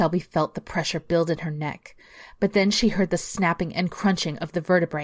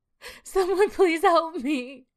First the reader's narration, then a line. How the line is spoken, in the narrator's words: Shelby cries and cries out